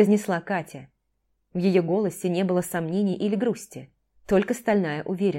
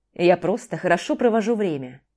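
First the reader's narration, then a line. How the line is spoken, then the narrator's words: Plain. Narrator (Russian): сказал Дима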